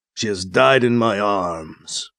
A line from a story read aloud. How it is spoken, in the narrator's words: Kit says, his voice a violent growl